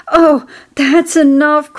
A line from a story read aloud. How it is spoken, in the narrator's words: cried Templeton